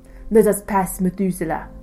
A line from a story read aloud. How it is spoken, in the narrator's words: the fox barked